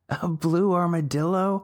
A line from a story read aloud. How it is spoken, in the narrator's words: multiple girls laughed